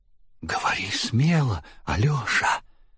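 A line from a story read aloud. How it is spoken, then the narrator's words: Whispered in ear. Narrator (Russian): шепнул ему на ухо министр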